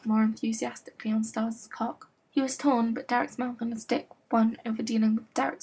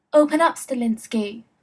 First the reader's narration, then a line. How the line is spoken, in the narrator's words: Jackson boomed through the door